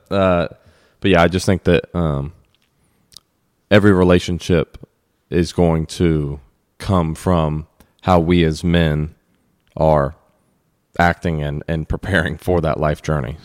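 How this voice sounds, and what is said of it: Choked-up, emotional voice. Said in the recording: “excuse me. I'm getting choked up.”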